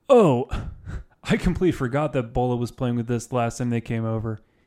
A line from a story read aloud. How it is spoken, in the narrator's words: he chuckled awkwardly